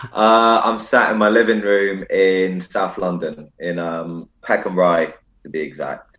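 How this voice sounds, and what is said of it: South London accent. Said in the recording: “I can tell by your accent you don't live too close to me.”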